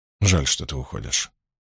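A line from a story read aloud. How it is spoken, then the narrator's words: Quiet. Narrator (Russian): тихо сказал Ранд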